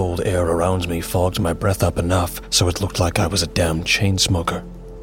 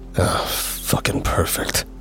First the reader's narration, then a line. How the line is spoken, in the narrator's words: I mumbled under my breath